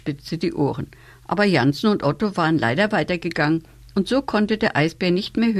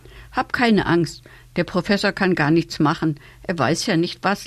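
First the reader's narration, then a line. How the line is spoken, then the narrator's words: Girl laughing. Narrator (German): lachte das Pinguinmädchen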